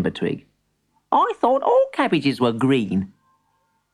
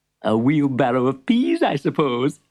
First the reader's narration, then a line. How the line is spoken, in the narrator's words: chuckled the shopkeeper